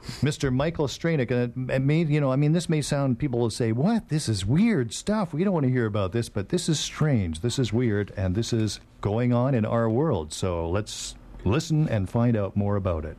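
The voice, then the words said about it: Old-time radio announcer voice. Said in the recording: “your old-time radio voice”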